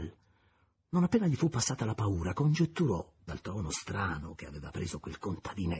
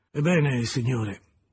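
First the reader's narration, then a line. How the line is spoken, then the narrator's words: Pained sighing reluctance. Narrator (Italian): disse infine con un sospiro, come se avesse chiamato il chirurgo per l'operazione più dolorosa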